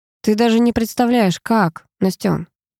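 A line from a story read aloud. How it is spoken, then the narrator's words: Hoarse, close to ear. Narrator (Russian): хрипел на ухо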